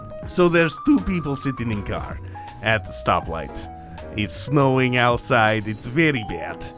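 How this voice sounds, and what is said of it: Put-on Russian accent. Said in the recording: “you have to do the Russian accent.”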